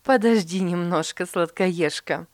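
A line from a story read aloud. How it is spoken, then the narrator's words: Laughing mother. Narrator (Russian): засмеялась мама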